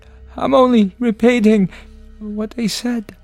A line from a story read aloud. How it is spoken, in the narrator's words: stammered Edmund